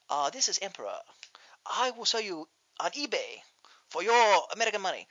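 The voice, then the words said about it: Attempted put-on Chinese accent. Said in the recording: “I can't do a Chinese accent.”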